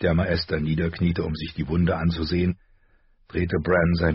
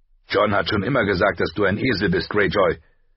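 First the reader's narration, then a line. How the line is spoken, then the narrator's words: Loud. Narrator (German): sagte Rob laut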